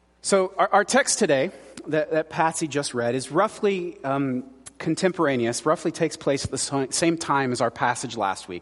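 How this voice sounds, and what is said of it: Hoarse, strained, failing voice. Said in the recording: “I feel like I'm losing my voice for some reason. So if I start squeaking up here ... Something's going on in my voice today.”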